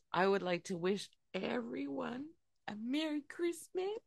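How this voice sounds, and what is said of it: Old lady character voice. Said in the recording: “Why are you sounding like an old lady? ... Mrs. Claus”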